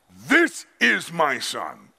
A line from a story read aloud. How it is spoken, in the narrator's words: God shouted to the earth, when God announced